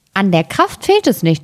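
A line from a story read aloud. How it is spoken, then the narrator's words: Plain. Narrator (German): antwortete das Schneiderlein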